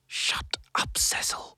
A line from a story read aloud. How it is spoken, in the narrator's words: hissed Flora Sourbutts, her voice cracking like a whip